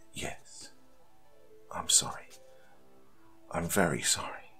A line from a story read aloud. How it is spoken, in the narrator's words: whispered